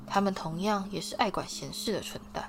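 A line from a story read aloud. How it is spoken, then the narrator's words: Soft voice. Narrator (Chinese): 他轻声说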